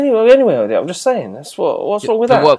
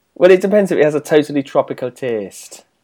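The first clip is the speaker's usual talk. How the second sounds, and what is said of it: Put-on Newcastle accent. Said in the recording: “That's a good accent. ... Well, it's from Newcastle, isn't it?”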